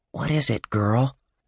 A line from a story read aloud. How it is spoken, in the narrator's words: he whispered